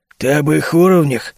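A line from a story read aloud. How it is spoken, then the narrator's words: Tired reply. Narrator (Russian): устало ответил вопросом на вопрос Фархас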